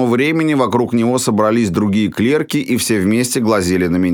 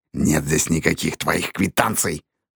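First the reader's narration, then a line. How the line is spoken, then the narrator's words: Hiss. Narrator (Russian): прошипел он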